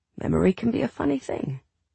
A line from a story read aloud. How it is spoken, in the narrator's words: he added softly